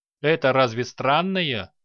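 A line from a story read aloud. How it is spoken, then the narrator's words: Chuckle. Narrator (Russian): хохотнул Руквен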